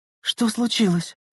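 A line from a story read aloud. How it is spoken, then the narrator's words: Trembling voice question. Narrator (Russian): дрогнувшим голосом спросила Лена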